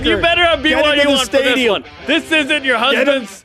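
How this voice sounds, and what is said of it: Yelling. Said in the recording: “why am I yelling?”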